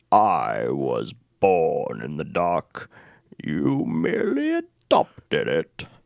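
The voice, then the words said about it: Bane impression. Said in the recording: “my Bane voice”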